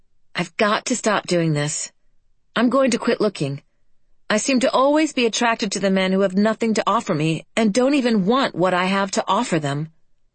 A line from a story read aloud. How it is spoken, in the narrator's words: Then finally, firmly